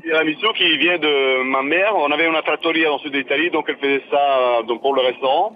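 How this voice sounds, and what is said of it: Italian accent speaking French. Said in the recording (French): “quel bel accent italien ... avec l'accent italien”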